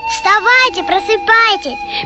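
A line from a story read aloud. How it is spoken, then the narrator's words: Squeaky. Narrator (Russian): пищал Вениамин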